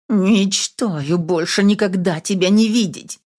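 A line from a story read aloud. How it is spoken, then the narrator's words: Hissed, knowing defeat. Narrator (Russian): прошипела я, понимая, что уже проиграла эту битву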